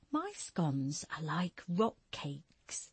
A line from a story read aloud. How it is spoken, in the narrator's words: Stella whispered to Julia